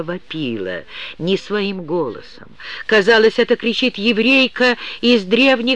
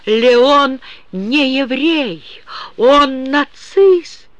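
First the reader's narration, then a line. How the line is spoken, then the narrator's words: Loud sobbing woman. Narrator (Russian): Маша рыдала так громко, что Герману пришлось отодвинуть трубку от уха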